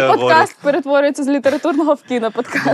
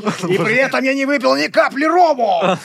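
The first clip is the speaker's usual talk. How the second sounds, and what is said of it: Poor Jack Sparrow pirate parody. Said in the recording (Ukrainian): “Найжихливіша пародія на типу Джека Горобця. ... Ну да, взагалі не попав.”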